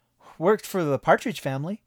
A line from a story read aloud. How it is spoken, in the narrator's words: I said cheerfully